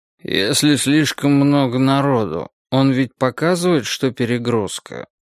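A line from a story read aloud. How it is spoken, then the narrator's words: Sleepy question. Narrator (Russian): сонно спросил какой-то студент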